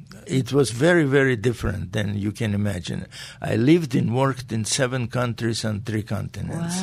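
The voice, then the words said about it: Speaks with a noticeable accent. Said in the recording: “I was terribly embarrassed about my accent”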